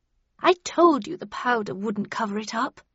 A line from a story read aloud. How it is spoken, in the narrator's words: she said to Bradshaw in a scolding tone